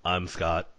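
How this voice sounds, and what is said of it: Flat underselling robot voice. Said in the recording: “That was my comedy robot voice. ... the underselling comedy robot”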